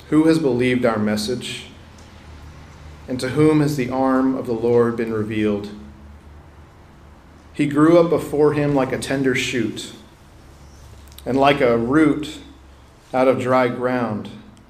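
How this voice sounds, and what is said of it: Slow, deliberate reading aloud. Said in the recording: “read this slowly.”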